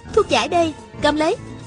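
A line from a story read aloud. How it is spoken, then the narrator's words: Shouting while chasing. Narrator (Vietnamese): Hà Thiết Cửu đuổi theo, vừa ném vừa la lên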